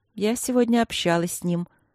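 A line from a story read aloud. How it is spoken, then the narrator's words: Surprisingly calm. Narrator (Russian): на удивление спокойно сообщила Василина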